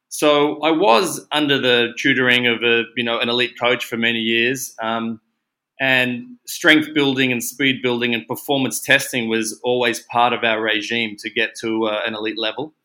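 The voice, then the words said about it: Australian accent. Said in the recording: “You can probably hear from my accent that I am in fact an Aussie”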